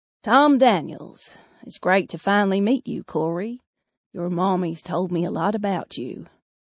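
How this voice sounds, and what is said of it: Thick Southern Texas accent. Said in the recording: “The man's accent is thick Southern Texas.”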